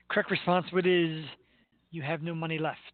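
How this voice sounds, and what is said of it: Imitates another person's voice. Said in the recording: “my Alex Trebek impersonation”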